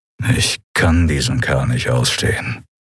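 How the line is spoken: Growling. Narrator (German): knurrte Telios

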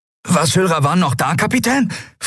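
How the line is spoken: Excited question. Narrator (German): fragte Miko aufgeregt

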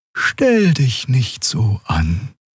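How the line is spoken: Soft gentle voice. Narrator (German): sagte sie mit sanfter Stimme

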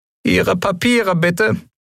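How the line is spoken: Squeaky commanding voice. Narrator (German): piepste er befehlsgewohnt

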